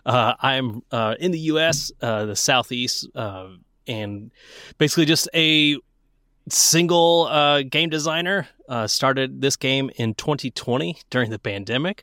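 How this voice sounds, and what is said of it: Southeastern US accent. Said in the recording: “You can probably tell by my accent, I am not from the same place as everybody else.”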